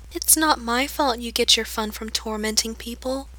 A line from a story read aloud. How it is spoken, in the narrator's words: the second girl says calmly